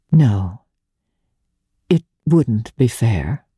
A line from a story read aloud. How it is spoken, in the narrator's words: She said slowly